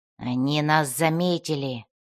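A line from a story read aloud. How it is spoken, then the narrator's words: Whispered. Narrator (Russian): прошептал он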